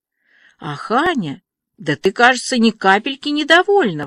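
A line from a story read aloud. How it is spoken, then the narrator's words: Exclaiming. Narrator (Russian): воскликнула Диана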